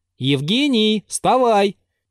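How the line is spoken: Loud. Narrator (Russian): прибавил он громко

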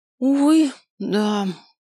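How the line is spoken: Sighing mage. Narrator (Russian): вздохнул маг

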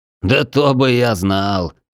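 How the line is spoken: Prince laughing. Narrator (Russian): засмеялся наследный принц

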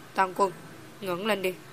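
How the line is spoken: Cold, sneering. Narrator (Vietnamese): Hà Hầu Tử Khâm lạnh lùng cười nhạt, nói

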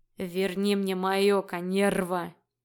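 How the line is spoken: Bestial growl. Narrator (Russian): Все больше напоминая зверя, прорычал Фил

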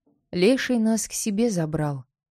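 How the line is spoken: Calm. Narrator (Russian): спокойно продолжил речь свою

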